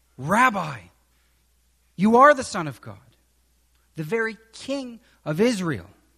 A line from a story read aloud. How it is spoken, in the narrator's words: Nathanael exclaimed